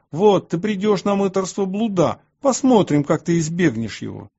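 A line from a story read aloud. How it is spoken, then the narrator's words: Furious shouting. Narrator (Russian): В ярости они кричали на меня и говорили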